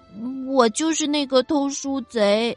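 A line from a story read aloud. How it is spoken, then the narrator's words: Ashamed, small quiet voice. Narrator (Chinese): 那个小东西羞愧的低下头，难为情的小声说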